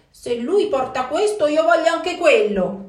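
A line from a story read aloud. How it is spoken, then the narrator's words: Quick shout, brother. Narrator (Italian): subito grida un altro fratello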